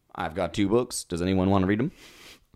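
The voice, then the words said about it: Put-on Texas accent. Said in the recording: “that Texas accent we just did was inadvertent but appropriate.”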